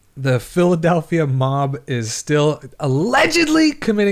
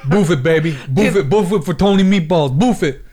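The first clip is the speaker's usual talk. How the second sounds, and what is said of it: Put-on mafia Italian accent. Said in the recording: “your mafia Italian accent”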